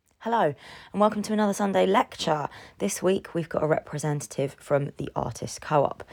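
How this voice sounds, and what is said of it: Losing voice, kept in lower register. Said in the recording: “excuse my voice, by the way. I've been losing my voice for like the past 3 weeks. It's just occasionally it'll just go. So hopefully if I stay in a lower register, it'll be normal. So I will talk like this and then you won't hear my squeaky voice.”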